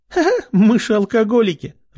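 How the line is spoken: Burst out laughing. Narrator (Russian): расхохоталась подруга

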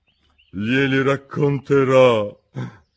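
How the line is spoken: Cavernous tone. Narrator (Italian): disse la Cleopatra col guscio in tono cavernoso

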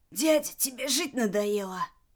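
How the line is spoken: Indignant hoarse wheeze. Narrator (Russian): возмущенно сипел

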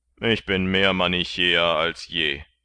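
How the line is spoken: Calling out. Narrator (German): rief Martin

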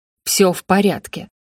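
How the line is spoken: Almost growled. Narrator (Russian): почти прорычал Геральт

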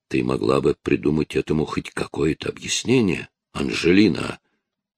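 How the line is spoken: Father speaking through teeth. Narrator (Russian): процедил отец

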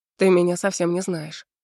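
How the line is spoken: Calm. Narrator (Russian): спокойно говорит Гейден

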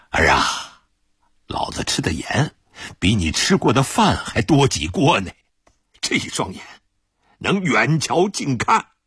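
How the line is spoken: Calm, chuckling. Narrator (Chinese): 古大顺子没有发火，呵呵笑道

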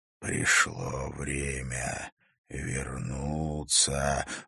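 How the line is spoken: Hoarse whisper. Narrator (Russian): звучал хриплый шепот

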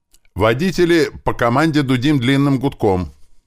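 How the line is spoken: Loud elated shout over radio. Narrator (Russian): Громко крикнул я в рацию от захлестнувших меня положительных эмоций

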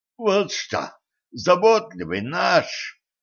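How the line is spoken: Hoarse rasp. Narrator (Russian): прохрипел Дэн

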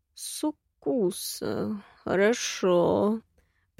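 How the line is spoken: Muttering to himself. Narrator (Russian): пробормотал себе под нос

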